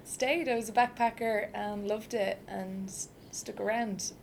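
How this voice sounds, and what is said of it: Irish accent. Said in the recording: “for my accent, I'm Irish.”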